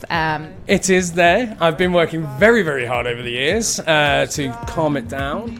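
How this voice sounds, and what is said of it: Mild posh Scouse accent. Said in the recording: “a little accent there from up north ... Liverpool boy. Well, Merseyside ... posh scouse”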